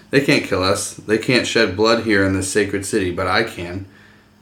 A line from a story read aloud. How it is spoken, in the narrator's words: Viserys laughed and said